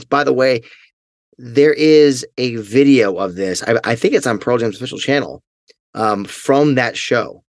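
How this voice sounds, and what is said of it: Strained, failing voice. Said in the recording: “my voice is obviously starting to fail me”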